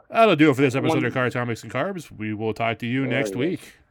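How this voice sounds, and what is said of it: Creepy announcer voice. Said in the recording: “in my creepy announcer voice.”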